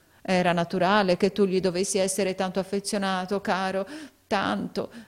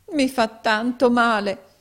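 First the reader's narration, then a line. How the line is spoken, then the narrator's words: Poor girl exclaiming. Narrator (Italian): esclamò la poverina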